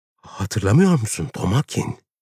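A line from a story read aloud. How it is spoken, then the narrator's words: Trembling voice. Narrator (Turkish): Titreyen bir sesle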